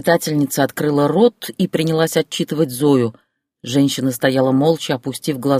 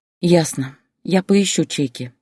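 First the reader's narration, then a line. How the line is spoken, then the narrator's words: Woman sighing. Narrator (Russian): вздохнула женщина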